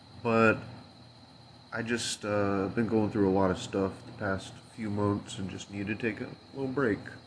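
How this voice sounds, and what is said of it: Nasal, congested voice. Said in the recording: “Sorry if I sound a little nasally. Kind of feeling a little under the weather here.”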